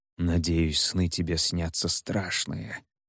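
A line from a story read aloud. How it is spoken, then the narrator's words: Quiet muttering. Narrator (Russian): пробормотал северянин негромко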